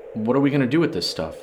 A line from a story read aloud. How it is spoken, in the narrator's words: John asked